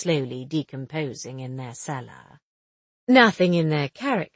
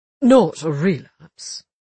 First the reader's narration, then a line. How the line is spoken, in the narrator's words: He asked anxiously